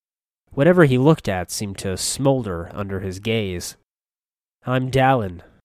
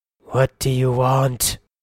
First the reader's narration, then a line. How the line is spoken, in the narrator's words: He snarled